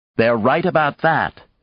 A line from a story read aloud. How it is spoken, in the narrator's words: she said harshly